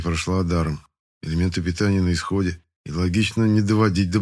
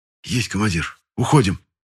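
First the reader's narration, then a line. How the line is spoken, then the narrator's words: Quiet whisper. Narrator (Russian): тихо прошептал Тесин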